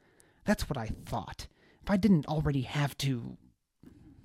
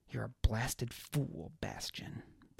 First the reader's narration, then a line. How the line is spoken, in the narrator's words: Baz muttered to himself